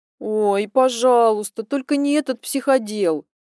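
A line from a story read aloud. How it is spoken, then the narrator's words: Moaning. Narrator (Russian): простонала Алинка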